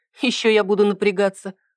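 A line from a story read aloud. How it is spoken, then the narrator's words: Skeptical snort. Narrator (Russian): хмыкнула я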